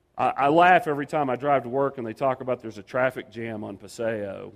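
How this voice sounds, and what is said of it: Texan regional accent. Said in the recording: “I'm not from New Mexico. I apologize for the accent. ... I'm originally from Dallas”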